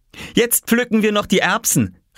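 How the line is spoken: Excited call. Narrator (German): rief Oskar begeistert

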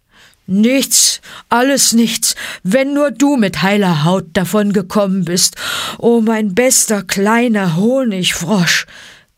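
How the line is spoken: Grunted. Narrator (German): grunzte Balu

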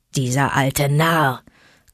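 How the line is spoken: Wolf growling. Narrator (German): knurrte Vater Wolf

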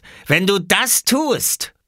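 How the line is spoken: Called out. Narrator (German): rief Robert

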